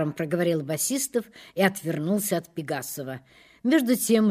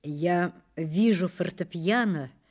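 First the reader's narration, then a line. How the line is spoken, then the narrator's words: Soft, gentle, princely. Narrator (Russian): начал Рудин мягко и ласково, как путешествующий принц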